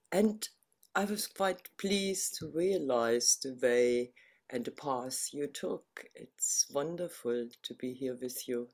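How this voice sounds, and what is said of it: German accent. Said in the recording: “you have that very, very beautiful accent... you're from Berlin originally... the accent remains”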